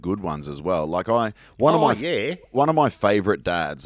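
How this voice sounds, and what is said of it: Usual voice. Nothing is said of it.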